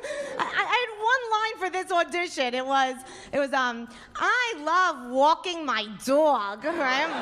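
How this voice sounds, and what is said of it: Strong New York accent. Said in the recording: “I have a very strong New York accent”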